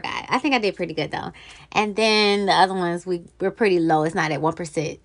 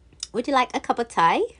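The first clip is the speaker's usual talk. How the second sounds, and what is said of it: Put-on British accent. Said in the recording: “I have been practicing my British accent.”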